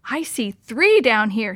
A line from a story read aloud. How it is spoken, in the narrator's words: she squealed